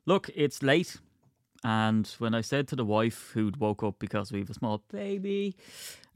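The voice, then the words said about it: Strained, hoarse voice. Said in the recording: “I didn't realise how screwballed my voice was. That's from just going around the house shouting, yes, loudly”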